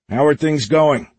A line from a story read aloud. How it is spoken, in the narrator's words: Roger called out